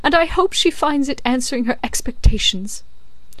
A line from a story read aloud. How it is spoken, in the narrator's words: cried the distracted Miss Pross